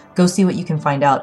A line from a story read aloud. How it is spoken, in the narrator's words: I said